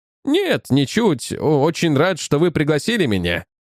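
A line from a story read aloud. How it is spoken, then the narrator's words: Plain. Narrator (Russian): ответил я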